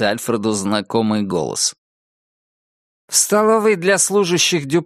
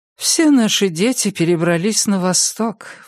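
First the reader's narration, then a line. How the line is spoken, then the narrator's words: Sighed. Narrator (Russian): вздохнула Иннет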